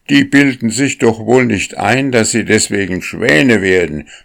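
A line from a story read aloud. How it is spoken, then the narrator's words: Many voices shouting. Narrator (German): schrien von allen Seiten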